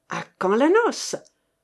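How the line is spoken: Exclaiming. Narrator (French): s'écria-t-il

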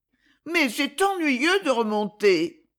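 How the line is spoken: Sighing. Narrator (French): soupira Ernest

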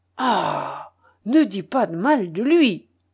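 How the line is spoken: Exclamation. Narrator (French): s'écria Falcoz

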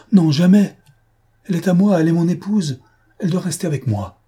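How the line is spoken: Loud forceful cry. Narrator (French): Il s'écria fortement

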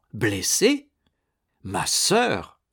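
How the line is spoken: Exclaiming. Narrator (French): s'exclama César

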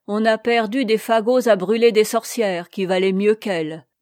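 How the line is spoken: Angry grumbling. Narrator (French): grommela Dame Marthe avec colère

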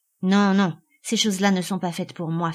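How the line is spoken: Curt, dry. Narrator (French): fit-il sèchement

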